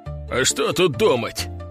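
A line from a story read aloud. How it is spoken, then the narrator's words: Snorting. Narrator (Russian): хмыкнул Семен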